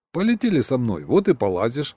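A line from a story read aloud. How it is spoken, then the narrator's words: Snorting grunt. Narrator (Russian): хмыкнул я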